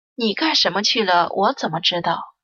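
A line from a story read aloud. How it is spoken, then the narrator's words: Flat, indifferent. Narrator (Chinese): 锦朝……眼皮也不抬的淡淡说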